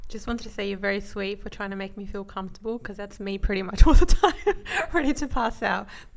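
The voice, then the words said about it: Deeper voice, clear Australian accent. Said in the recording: “my sister has a deeper voice than the two of us ... my sister has a more Aussie, clearer accent”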